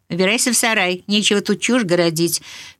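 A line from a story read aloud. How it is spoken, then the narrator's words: Sharp scolding shout. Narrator (Russian): прикрикнула на него хозяйка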